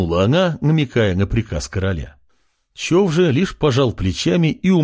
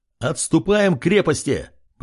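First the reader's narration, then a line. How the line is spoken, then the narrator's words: Shout. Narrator (Russian): прокричал Артем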